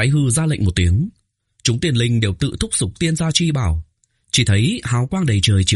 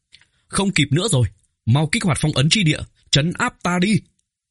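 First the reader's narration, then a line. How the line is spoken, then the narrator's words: Raised voice. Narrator (Vietnamese): Tô Vân cao giọng nói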